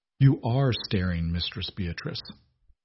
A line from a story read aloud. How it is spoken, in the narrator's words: he said softly